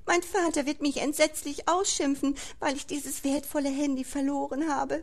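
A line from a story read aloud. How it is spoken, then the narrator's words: Tearful sobbing. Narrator (German): schluchzte sie unter noch mehr Tränen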